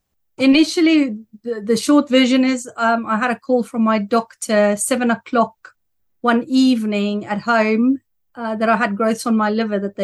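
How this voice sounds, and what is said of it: South African accent. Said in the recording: “nice South African accent ... it's very noticeable. I sometimes get it confused with the Dutch”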